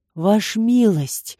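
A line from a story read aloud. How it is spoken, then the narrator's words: Pleading. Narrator (Russian): взмолился Риэль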